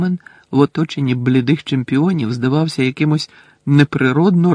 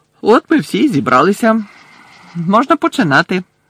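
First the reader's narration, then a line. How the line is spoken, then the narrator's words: Cheerful. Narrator (Ukrainian): весело промовив Бекмен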